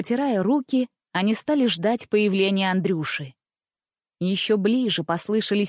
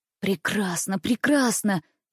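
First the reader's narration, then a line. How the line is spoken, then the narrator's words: Whispering young brothers. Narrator (Russian): зашептали два младших брата Ивановы и Никс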